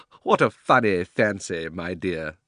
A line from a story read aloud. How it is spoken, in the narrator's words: said Uncle Andrew with a laugh